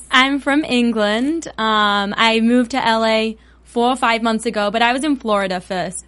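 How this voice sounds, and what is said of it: Cute accent. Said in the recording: “She has the cutest accent ever”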